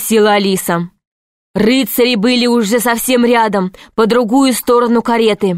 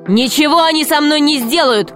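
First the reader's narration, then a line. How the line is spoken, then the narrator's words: Shouted. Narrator (Russian): крикнул Грико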